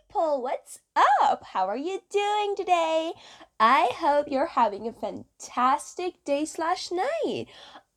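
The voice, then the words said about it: Put-on Valley Girl accent. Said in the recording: “my Valley Girl impression”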